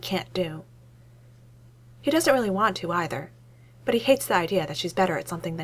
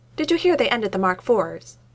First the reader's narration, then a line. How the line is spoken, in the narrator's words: he asks loudly